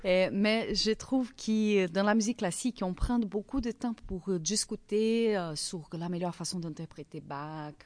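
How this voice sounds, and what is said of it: Strong foreign accent in French. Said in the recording (French): “les gens disaient que j'ai beaucoup d'accent dans toutes les langues que je parle.”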